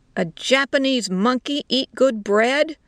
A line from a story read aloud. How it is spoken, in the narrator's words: the soldier shouted